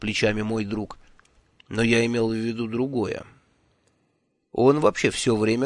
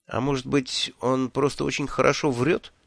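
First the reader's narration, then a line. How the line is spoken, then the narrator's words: Uncertain suggestion. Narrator (Russian): неуверенно предположил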